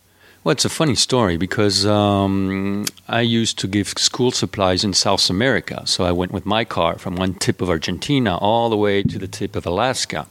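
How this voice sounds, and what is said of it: French accent. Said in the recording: “You grew up in France. People could tell right now... they can tell you're not from Alabama... Oh, you can see my accent. I can't hide it anymore.”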